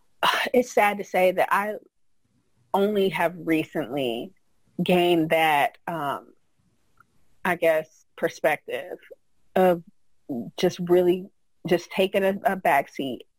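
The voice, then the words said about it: Emotional, moved voice. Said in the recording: “I'm getting emotional.”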